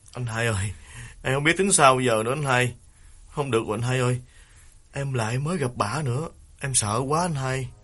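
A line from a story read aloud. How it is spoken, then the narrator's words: Tearful, near crying. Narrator (Vietnamese): Đào mếu máo kể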